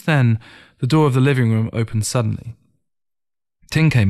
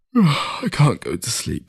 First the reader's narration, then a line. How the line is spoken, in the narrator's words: said through a yawn